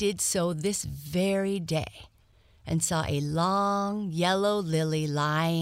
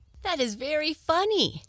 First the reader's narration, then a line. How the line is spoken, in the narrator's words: exclaimed little Ida, clapping her hands with glee